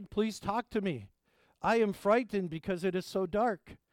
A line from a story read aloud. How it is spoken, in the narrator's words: the boy cried